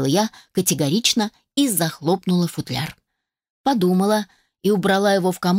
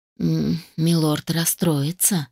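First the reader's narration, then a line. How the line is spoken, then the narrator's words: Sad sigh. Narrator (Russian): печально вздохнула миссис Фанни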